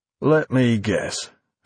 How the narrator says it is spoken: Finch remarked wearily

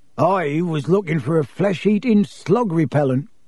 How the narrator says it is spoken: growled Hagrid

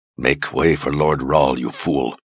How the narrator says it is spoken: Egan growled

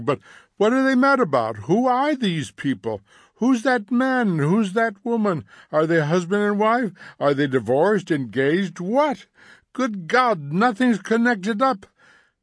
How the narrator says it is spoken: cried Montag

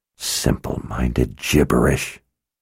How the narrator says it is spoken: Verna muttered to herself

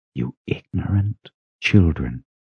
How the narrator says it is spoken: Shota whispered

